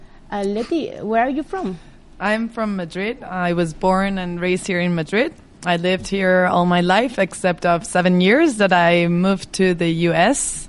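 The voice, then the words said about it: American accent. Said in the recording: “that's why you have an American accent.”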